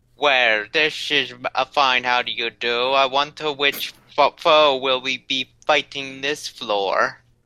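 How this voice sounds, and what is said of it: Character voice with put-on accent. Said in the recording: “That accent.”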